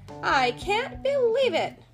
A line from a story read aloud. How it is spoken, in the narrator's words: cried after a little while